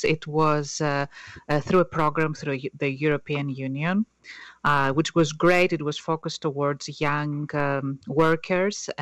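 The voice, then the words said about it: Greek accent. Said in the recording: “as you can tell from my accent, I'm not from the U.S., so I was born in Greece”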